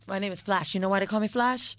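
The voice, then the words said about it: Convincing Jamaican accent. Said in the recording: “Jamaican... she got these accents down pat”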